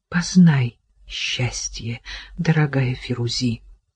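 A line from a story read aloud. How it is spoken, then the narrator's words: Tearful whisper. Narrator (Russian): Еле сдерживая слезы, Кира прошептала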